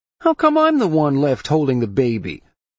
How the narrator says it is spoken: He whined

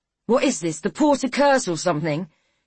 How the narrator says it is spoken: He shouted

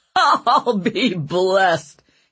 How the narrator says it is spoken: he replied with a belly laugh

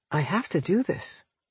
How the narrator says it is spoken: I told him softly

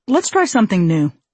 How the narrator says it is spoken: Barry would nicely but firmly say

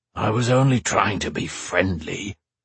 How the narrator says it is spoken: rumbled the dragon

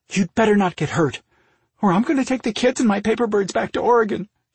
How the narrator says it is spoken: threatened in an unsteady voice that broke on the last word

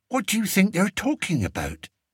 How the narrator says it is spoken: Martha whispered to the two boys

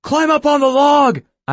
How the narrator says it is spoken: I shouted

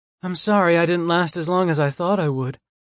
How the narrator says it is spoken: she apologizes with another yawn

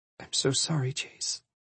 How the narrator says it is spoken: she whispered

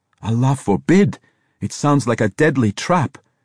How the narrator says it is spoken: Yusef cried

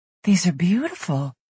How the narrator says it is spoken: she whispered

